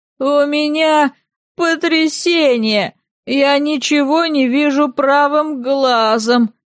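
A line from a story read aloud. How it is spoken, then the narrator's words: Moaning. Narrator (Russian): простонал он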